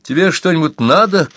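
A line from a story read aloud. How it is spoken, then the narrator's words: Shouting. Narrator (Russian): крикнула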